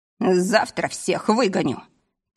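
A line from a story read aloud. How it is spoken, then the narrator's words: Solemn promise. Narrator (Russian): пообещал торжественно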